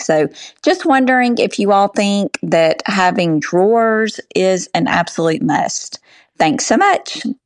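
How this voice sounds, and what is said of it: Southern drawl accent. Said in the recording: “That accent ... I want to have a southern drawl for a day.”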